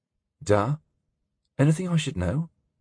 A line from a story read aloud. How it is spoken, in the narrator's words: he asked hesitantly